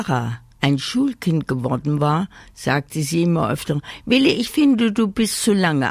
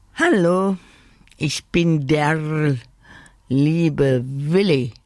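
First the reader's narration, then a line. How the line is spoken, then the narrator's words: Croaking. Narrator (German): krächzte er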